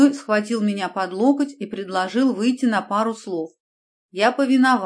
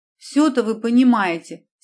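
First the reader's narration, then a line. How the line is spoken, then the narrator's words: Offended exclamation. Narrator (Russian): с обидой воскликнул следователь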